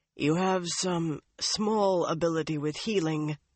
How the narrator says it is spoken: the Chosen told Chesmal thickly

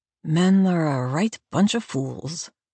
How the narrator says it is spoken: Abigail mutters

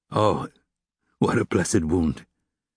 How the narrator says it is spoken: he repeated in a hushed voice

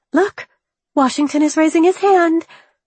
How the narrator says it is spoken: Peggy exclaimed

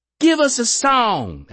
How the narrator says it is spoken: Alice snapped

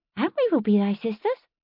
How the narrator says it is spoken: Prudence added kindly

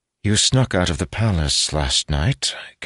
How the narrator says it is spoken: Caroline observed, her tone flat

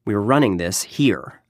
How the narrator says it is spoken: I said firmly

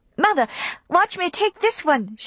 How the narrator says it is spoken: she cried

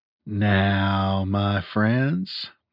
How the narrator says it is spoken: he said softly

